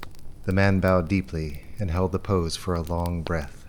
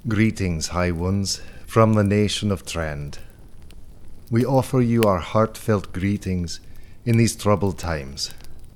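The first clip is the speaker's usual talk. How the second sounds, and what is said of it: Distinctive accent. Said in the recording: “his voice bore a distinctive accent.”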